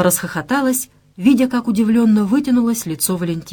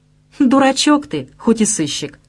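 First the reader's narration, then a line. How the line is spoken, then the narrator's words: Calm, offhand remark. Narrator (Russian): спокойно проронила девушка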